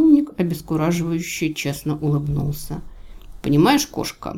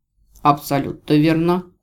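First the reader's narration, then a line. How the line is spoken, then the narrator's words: Cold confirmation. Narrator (Russian): холодно подтвердил Марий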